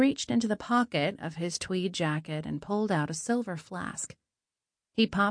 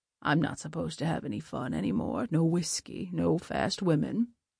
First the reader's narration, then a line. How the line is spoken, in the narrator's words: chuckled